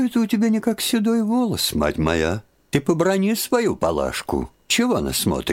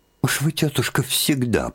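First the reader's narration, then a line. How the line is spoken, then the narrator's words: Annoyed mutter. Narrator (Russian): пробормотала с досадой Марья Дмитриевна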